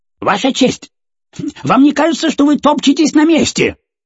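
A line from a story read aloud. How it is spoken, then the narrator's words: Loud question. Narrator (Russian): громко поинтересовался кролик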